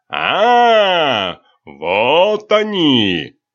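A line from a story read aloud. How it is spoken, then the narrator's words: Shouting. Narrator (Russian): закричал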